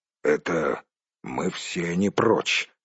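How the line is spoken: Gruff grumble. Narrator (Russian): буркнул Торин

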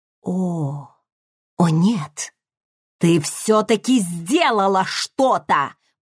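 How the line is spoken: Hiss. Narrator (Russian): прошипел

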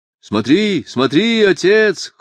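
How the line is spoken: Sons shouting in chorus. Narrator (Russian): хором закричали сыновья

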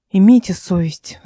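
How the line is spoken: Sighing. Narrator (Russian): вздохнула Эл

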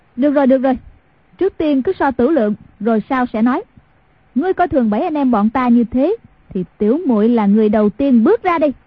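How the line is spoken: Bold woman's raised voice. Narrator (Vietnamese): Việt nữ kiếm Hàn Tiểu Quanh tuy là phụ nữ nhưng tính nết 10 phần hào hiệp, lúc ấy cao giọng nói

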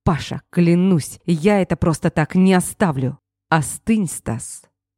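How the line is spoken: Irritated growl. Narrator (Russian): Раздраженно рыкнул

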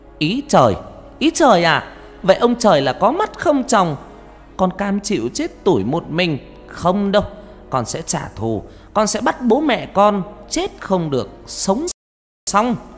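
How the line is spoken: Near-scream in silent night. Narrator (Vietnamese): Con Hoa tiếng nói như hét lên giữa bốn bề đêm vắng

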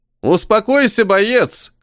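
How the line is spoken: Shout. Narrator (Russian): крикнул

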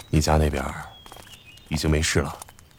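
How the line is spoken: Low voice. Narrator (Chinese): 齐高荣低声开口

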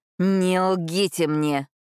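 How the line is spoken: Barely restrained furious growl. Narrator (Russian): прорычал Адольфо, еле сдерживаясь, чтобы не ударить ее

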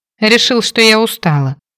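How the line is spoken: Snorted. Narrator (Russian): хмыкнула

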